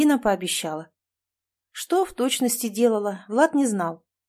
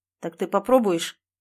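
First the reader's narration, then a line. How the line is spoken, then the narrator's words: Sulky, sharp question. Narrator (Russian): Он надулся и резко спросил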